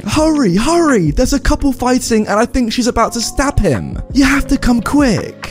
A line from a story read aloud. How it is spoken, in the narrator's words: the girl was really floored and kept yelling at me